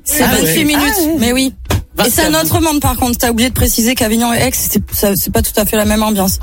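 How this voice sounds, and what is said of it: Southern French Avignon accent. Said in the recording (French): “j'ai encore l'accent d'Avignon ... l'accent est resté. ... Tu gardes un peu l'accent d'en bas.”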